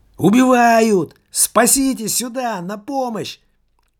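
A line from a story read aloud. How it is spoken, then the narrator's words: Woman screaming. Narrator (Russian): кричала женщина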